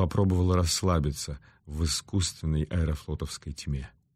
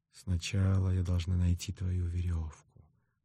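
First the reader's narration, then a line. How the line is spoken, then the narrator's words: Whisper. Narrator (Russian): прошептала Клариса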